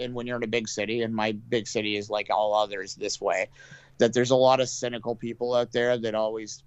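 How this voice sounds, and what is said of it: Usual voice. Nothing is said of it.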